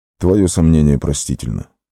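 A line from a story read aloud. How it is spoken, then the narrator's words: Soft. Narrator (Russian): мягко сказал он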